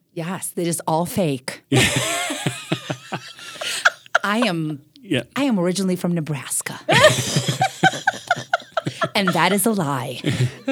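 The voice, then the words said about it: Eastern European accent. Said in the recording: “In your Eastern European accent.”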